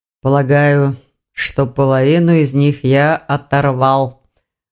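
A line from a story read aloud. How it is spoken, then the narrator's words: Low, muffled. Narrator (Russian): глухо проговорил Саргон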